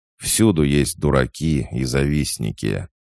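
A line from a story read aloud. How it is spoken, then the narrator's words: Deliberately loud. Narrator (Russian): сказал намеренно громко, чтобы его слышали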